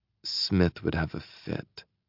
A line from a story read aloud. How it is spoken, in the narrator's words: she mutters